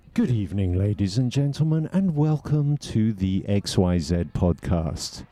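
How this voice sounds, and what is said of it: Formal BBC broadcaster voice. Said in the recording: “radio voice ... I should practice my BBC broadcaster voice”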